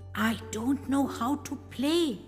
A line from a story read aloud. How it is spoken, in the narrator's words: whispered